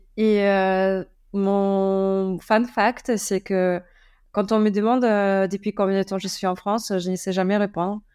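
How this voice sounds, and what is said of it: Slight German accent in French. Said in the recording (French): “je suis allemande, je pense qu'on peut l'entendre avec mon, mon, petit accent.”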